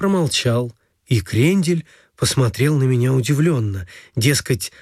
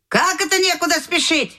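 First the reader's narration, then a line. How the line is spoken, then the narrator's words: Grandmother shouting from kitchen. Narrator (Russian): крикнула из кухни бабушка Волк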